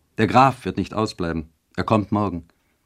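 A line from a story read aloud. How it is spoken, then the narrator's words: Calling out. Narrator (German): rief Eduard Charlotten zu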